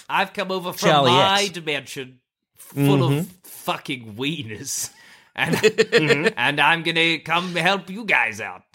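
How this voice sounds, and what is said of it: Character voice that sounds drunk. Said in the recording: “He sounds drunk. ... My Charles sounds drunk.”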